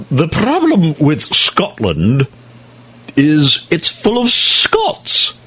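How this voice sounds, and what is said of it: Impression of King Longshanks from Braveheart. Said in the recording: “Like King Longshanks in Braveheart ... pardon the impersonation”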